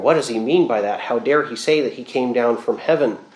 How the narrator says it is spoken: grumbling a little bit, and you can hear the crowd murmuring

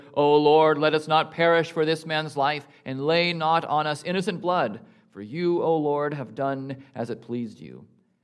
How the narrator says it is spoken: they called out to the Lord

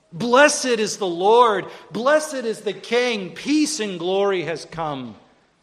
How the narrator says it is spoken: This mob, which is today screaming

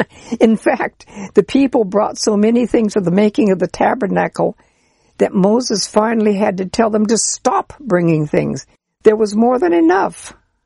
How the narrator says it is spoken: He stops and laughs and then says

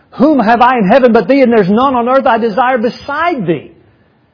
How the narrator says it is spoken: as Asaph cried

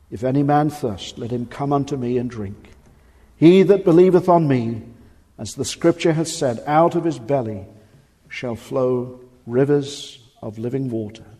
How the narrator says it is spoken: Jesus stood and cried, saying

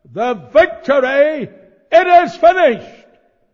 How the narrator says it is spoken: Jesus shouted

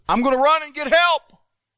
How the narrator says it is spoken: he hollers down to him, and he says

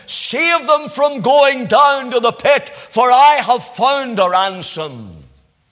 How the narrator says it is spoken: he came from the pit shouting

